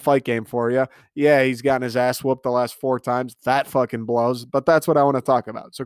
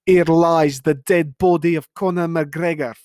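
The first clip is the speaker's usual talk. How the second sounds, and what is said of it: Poor attempt at Irish accent. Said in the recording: “that was the worst Irish accent I fucking have ever heard ... I'm usually better at accents. That was the worst.”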